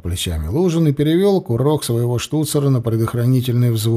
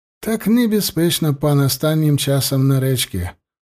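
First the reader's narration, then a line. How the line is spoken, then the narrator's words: Sighing. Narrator (Russian): вздохнул Микола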